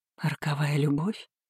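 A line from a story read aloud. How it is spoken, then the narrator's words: Trembling voice. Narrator (Russian): дрожащим голосом повторила я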